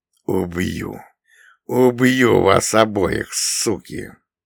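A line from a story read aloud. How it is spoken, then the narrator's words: Through gritted teeth. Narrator (Russian): сквозь зубы процедил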